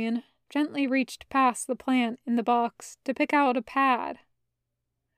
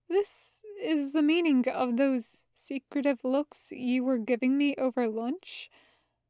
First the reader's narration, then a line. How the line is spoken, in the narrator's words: His voice sounded strange, somewhat shaky